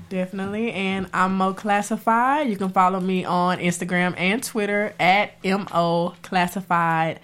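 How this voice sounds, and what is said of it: Stuffy, congested, deep voice. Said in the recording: “I'm a little sick, so I'm a little stuffy ... my deep voice”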